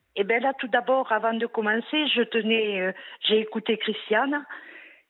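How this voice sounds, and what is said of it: A pretty regional accent. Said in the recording (French): “C'est un bien joli accent que vous avez là.”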